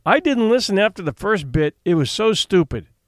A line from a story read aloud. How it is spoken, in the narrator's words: said Cyril